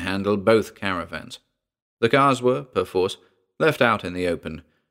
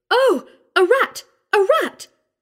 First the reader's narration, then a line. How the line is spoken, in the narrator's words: squealed Mona Fanshawe